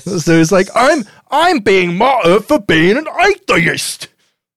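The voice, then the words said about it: Put-on Scottish accent. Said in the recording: “that was quite an accent... Scottish”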